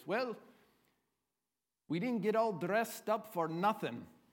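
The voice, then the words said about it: Put-on Irish accent. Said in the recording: “I'll give you my Irish accent here.”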